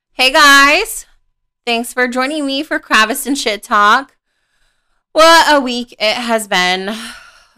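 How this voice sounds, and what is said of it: Sick, throaty voice. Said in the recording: “apologize for my voice today, folks, because I have extremely swollen tonsils”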